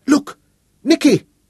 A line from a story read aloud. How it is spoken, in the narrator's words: she cried